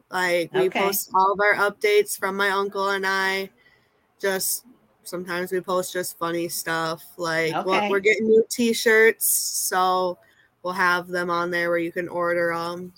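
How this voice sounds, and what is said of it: Minnesota accent. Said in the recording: “you have a Minnesota accent? ... you and that accent ... I hear it in your voice.”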